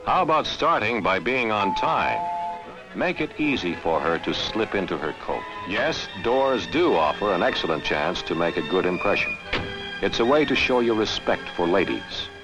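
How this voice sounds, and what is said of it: Old-timey narrator voice. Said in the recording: “That old-timey voice”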